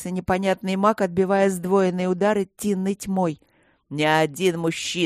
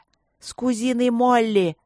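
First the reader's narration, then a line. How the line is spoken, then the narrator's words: Reluctant, through gritted teeth. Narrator (Russian): сквозь зубы призналась Эбби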